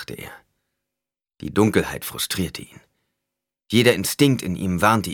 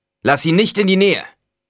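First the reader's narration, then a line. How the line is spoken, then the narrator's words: Calling out. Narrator (German): rief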